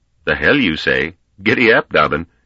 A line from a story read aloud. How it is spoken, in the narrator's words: the man laughed loudly and replied